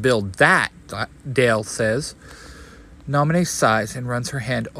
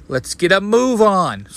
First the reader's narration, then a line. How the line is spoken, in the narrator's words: Sora shouts